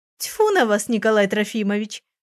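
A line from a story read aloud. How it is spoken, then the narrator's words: Flirtatious laugh, woman. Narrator (Russian): кокетливо засмеялась женщина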